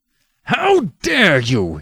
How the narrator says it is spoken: He cried

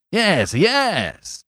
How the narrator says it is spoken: said the attendant excitedly

